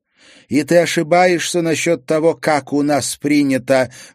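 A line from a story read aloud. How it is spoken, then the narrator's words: Loud, from another room. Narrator (Russian): громко послышалось из ванной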